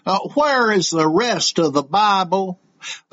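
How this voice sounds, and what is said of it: Southern bumpkin accent. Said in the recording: “requests a Southern bumpkin accent. Well, I guess I've got one of those.”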